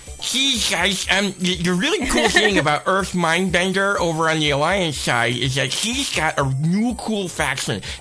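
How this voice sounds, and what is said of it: Nerdy caricature voice. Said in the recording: “your nerd voice guy ... your nerd voice”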